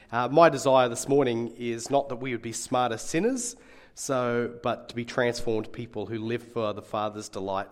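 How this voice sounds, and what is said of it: Slightly raspy voice. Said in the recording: “I do have a bit of a raspy voice”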